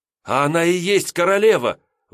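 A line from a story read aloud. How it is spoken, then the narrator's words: Proud exclamation. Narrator (Russian): воскликнул я, исполненный гордости как ее благородством, так и доверием, которое проявляла она ко мне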